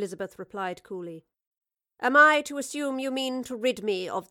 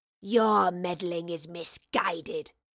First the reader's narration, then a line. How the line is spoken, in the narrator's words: snarled the wraith